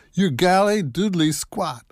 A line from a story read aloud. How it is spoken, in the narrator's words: the guys in the back shout